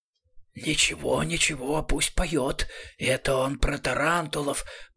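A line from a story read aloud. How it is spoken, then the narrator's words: Hissed. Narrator (Russian): прошипел Рамкек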